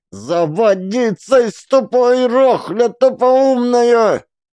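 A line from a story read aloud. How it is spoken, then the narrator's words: Roaring girl. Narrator (Russian): Девка, взревев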